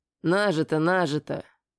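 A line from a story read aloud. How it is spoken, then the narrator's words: Grumbling. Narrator (Russian): проворчал я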